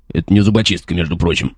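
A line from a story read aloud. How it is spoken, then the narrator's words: Taken-aback grumble. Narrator (Russian): буркнул опешивший воин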